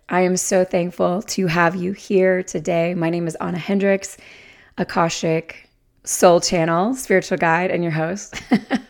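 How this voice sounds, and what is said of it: Strained, overworked voice. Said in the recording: “my voice is not what it usually is. It got overworked this weekend”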